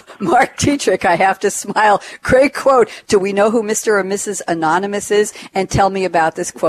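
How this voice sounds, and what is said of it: Usual voice. Nothing is said of it.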